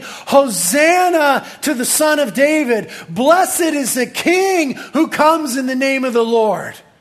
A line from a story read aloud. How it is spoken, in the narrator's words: hundreds of people yelling